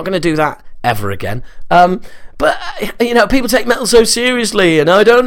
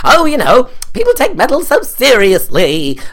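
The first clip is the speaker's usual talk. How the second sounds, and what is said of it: Exaggerated camp accent. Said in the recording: “some sort of incredibly camp accent”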